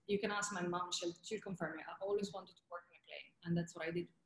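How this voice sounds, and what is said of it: Italian accent. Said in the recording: “my Italian accent was too strong ... I still have an accent”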